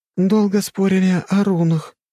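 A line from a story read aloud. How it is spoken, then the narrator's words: Hoarse. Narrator (Russian): прохрипела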